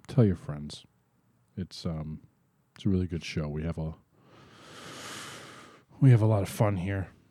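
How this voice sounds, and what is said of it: Sad, downcast voice. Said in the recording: “You sound so sad. ... Doesn't sound like it ... by the sound of your voice is ... It's very depressing.”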